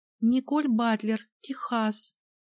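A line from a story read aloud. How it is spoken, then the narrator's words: Weak young female voice. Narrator (Russian): Слабым голосом откликнулась блондиночка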